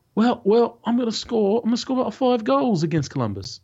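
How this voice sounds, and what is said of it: Generic English accent. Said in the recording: “I was just doing generic English accent at that point”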